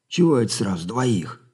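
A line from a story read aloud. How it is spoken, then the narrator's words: Offended soldier's grumble. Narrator (Russian): обиженно буркнул солдат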